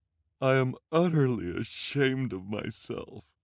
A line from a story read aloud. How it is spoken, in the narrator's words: she said, through her tears, and her shoulders shook with sobs